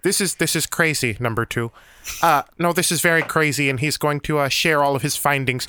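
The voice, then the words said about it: Dr. Evil character voice. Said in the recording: “I'm slipping into Dr. Evil.”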